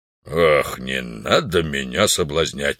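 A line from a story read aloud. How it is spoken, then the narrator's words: Irritated. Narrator (Russian): раздраженно ответил вождь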